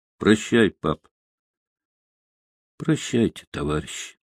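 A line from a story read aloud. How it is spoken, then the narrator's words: Quiet. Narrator (Russian): тихо сказал он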